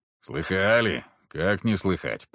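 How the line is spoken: Muttering coachman. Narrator (Russian): пробормотал наш возница

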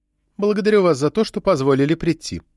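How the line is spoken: Calm reply. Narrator (Russian): спокойно ответила доктор Риттерсдорф

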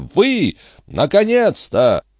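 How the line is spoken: Confident. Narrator (Russian): ответил малуинец в полной уверенности

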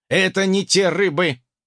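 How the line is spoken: Snorting. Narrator (Russian): фыркнул собеседник

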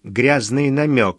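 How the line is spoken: Plain. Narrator (Russian): сказал я

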